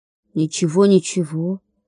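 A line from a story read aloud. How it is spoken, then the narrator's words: Muttering. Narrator (Russian): пробормотал Гоша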